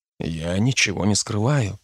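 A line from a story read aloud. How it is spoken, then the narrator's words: Quiet. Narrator (Russian): произнес я тихо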